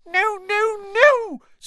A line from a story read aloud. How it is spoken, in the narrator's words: squeaked Dobby